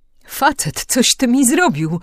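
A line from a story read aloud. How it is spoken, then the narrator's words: Indignant exclamation. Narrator (Polish): wykrzyknął z oburzeniem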